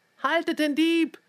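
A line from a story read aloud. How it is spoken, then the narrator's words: Shouting. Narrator (German): schrie er über den Flur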